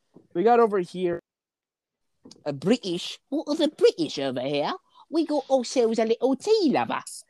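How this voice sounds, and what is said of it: Put-on British accent. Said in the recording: “That's a British accent?”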